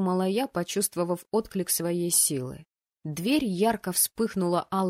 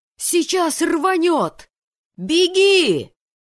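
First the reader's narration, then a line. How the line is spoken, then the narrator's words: Yelled. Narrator (Russian): завопил другой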